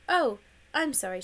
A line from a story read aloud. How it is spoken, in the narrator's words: said